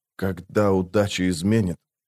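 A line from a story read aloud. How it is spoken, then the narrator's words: Captain muttering. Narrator (Russian): пробормотал капитан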